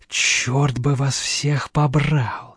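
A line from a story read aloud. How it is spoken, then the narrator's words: Mutter. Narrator (Russian): пробормотал Шумяков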